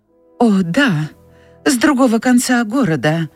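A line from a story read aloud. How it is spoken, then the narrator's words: Warm, friendly. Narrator (Russian): сказала Скарлетт, почувствовав расположение к этому человеку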